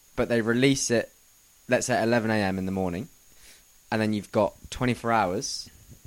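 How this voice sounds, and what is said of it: Australian accent. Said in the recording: “Why are you talking like an Australian?”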